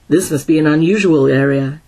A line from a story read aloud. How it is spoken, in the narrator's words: said